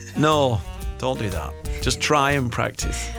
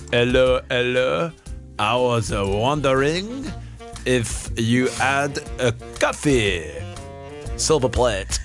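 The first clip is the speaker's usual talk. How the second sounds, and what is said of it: Exaggerated mock French accent in English. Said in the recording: “give it the old accent... don't do allo allo... say English words in a French accent?”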